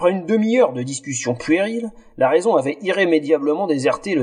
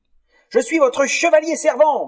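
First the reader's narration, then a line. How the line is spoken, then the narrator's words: Sudden shrill bawl. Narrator (French): brailla-t-il soudain d'une voix suraiguë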